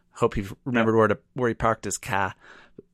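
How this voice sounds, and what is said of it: Poor imitation of Boston accent. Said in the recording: “my shitty impressions of Boston accents ... worst accent ever”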